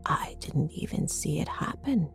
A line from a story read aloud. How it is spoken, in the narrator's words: she whispered